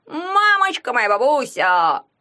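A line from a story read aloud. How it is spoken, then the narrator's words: Delighted exclamation. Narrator (Russian): воскликнул Игун в восторге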